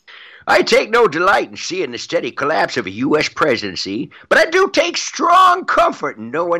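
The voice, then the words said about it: Walter Brennan old-timey cowboy voice. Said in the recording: “read a couple of John Brennan tweets in the voice, in the style of Walter Brennan. Old-timey cowboy.”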